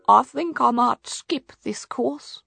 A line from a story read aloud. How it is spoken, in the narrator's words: he said weakly